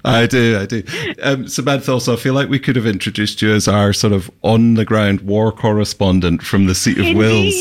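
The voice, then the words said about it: Speaks with a noticeable accent. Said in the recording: “Don't worry about his accent.”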